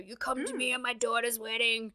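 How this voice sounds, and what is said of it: Poor imitation of another person's voice. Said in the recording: “the Godfather thing... That was the worst Marlon Brando impression... It was awful... it wasn't great”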